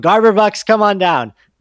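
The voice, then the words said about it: Bad game-show announcer impression. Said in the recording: “That was a bad impersonation of the Price is Right theme”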